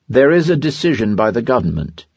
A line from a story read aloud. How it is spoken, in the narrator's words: he replied very dryly